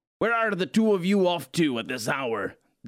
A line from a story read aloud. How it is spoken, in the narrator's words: Dad shouted from inside